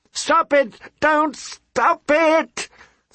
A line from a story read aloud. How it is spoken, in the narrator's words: Sansa screamed